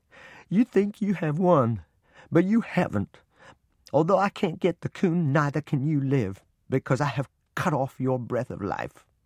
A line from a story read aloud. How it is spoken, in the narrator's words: Sobbing, I said